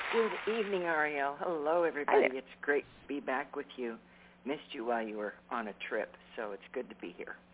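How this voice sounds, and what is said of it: Hoarse, raspy voice. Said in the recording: “I'm always hoarse anymore from sinus and pollen, but it's pretty strong right now, so I hope I can get through this without rasping ... I sound like Darth Vader”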